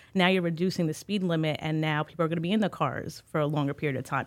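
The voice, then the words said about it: Staten Island New York accent. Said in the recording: “I'm from Staten Island, right, if you didn't catch the accent.”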